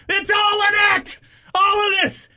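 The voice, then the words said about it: Raised, shouting voice. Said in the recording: “raising my voice for the benefit of good radio”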